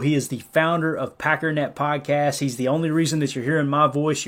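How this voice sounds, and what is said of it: Rural redneck-style American accent. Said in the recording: “I have to listen to this redneck accent all day.”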